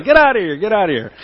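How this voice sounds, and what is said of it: Yelling loudly. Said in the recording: “I'm yelling at the dog”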